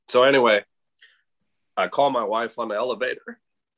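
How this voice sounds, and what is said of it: Emotional, choked-up voice. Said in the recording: “I get emotional... I think we're all about to cry now.”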